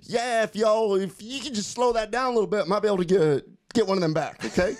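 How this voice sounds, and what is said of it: Imitated Arkansas Southern accent. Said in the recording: “imitating a good old Little Rock, Arkansas accent.”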